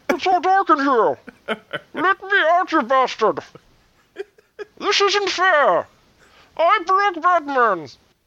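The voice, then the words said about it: Muffled Bane impression. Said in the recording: “Bad Bane impression ... he sounds all muffled”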